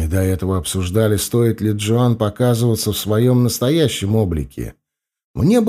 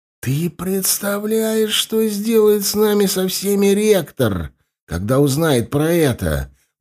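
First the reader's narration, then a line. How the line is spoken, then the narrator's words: Hissing. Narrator (Russian): прошипел Корнелл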